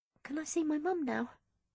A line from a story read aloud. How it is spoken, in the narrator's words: I asked in a small voice